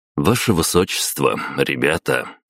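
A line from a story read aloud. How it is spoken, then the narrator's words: Plain. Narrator (Russian): ответил я гостям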